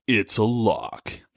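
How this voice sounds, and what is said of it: Deep, dramatic announcer voice. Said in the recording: “I got a pretty deep voice... crazy dramatic thing”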